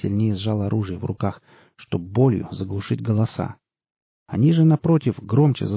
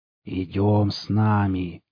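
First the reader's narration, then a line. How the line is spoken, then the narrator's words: Hoarse wheeze. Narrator (Russian): прохрипел он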